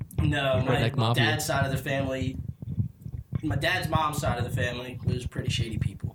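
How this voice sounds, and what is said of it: Usual voice. Nothing is said of it.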